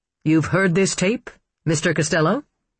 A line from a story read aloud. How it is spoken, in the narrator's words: Grabko asked